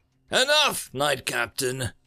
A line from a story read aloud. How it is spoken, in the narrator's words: Yashai shouted